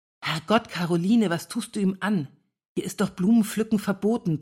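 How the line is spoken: Hissed. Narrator (German): zischte Annette ihr zu

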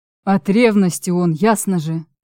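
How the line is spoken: Grumbled. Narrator (Russian): Буркнул Чарослав

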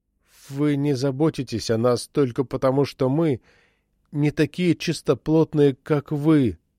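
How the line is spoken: Sad. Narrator (Russian): грустно произнес Джейкоб Симеон

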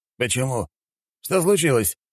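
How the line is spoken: Exclaimed. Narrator (Russian): воскликнул Медиус

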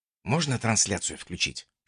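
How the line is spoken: Whisper in ear. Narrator (Russian): шепнул я ультиматору на ухо

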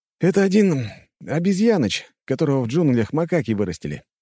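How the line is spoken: Cheerful. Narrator (Russian): весело проговорил Коля

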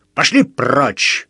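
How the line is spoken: Growled. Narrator (Russian): рыкнул

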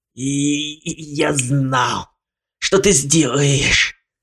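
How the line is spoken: Hoarse rasp. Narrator (Russian): Прохрипел Ламон

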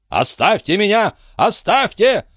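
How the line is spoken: Shouting. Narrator (Russian): закричал он

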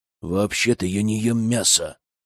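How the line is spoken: Through gritted teeth. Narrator (Russian): процедила Злата

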